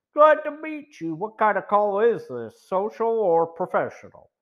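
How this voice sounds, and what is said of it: Surprisingly deep comical voice. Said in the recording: “in a surprising deep voice that had a comical effect”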